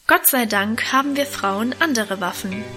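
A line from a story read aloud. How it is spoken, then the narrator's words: Plain. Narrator (German): antwortete Mutter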